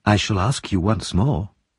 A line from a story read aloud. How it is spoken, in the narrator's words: said Harry softly